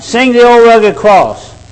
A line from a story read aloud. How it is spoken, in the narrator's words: he'd holler out